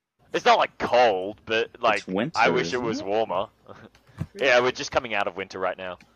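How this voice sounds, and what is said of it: Australian accent. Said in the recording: “accent? ... Oh, Australian, 100%.”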